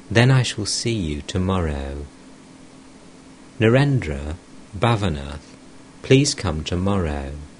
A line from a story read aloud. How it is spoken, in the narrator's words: The master said to him tenderly